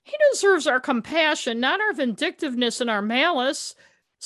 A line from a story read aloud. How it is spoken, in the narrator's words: Schroeder pleaded